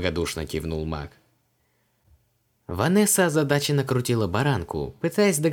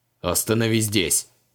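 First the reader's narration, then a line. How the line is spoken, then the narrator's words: Sharp demand. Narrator (Russian): резко потребовал Креол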